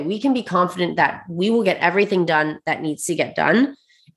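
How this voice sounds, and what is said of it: Congested voice from a cold. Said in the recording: “excuse my voice a little bit ... I'm on the tail end of a little bit of like a head cold. So I feel great, but I don't sound great.”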